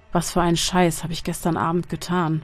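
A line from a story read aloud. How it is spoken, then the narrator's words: Muttering. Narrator (German): murmelte er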